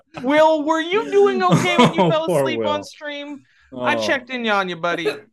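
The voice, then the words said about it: Imitates another person's voice. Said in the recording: “my best Will impression”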